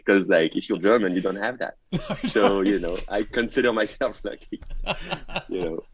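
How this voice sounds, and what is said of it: French accent. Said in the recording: “my French accent ... Never downplay the French accent”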